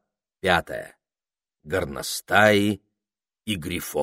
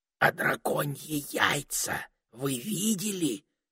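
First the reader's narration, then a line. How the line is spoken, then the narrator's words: Whispered question. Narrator (Russian): шепотом спросила Табита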